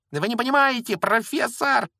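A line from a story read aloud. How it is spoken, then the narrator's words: Shrieking. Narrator (Russian): визжал Малфой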